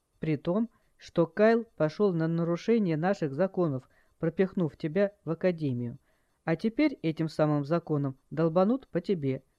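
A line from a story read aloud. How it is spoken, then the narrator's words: Calm reply. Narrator (Russian): спокойно ответил Джай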